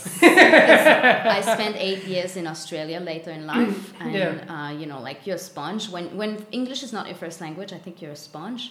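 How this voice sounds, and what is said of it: Mixed French Canadian accent. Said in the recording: “Everybody's confused by the accent, though. ... I don't sound as French Canadian as I could sound”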